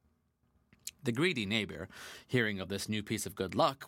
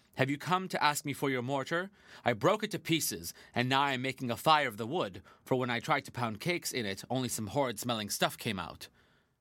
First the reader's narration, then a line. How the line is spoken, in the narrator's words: the wicked neighbor answered haughtily